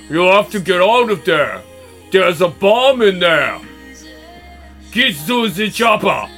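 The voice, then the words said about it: Imitation with Austrian accent. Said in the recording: “my flawless imitation ... Austrian accent.”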